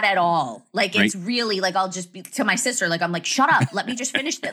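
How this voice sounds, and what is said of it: Fast New Jersey accent. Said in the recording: “your Jersey accent ... the tell of a Jersey accent that's not even like New York is the speed”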